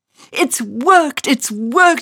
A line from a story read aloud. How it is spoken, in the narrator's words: she cried